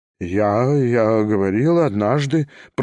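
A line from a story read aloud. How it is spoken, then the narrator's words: Embarrassed babbling. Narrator (Russian): пролепетал Степан Трофимович, весь покраснев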